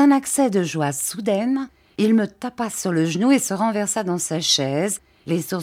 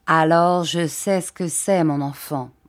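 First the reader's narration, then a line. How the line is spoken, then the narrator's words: Plain. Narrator (French): dit Monsieur Dick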